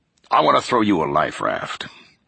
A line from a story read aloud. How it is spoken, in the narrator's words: he said